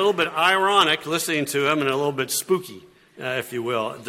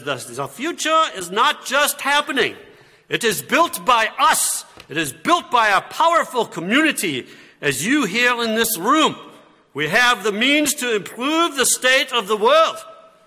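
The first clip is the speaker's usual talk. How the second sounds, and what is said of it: Imperfect put-on German accent. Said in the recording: “I know my German accent's not that great. But I think it kind of, you get a little bit of the feel.”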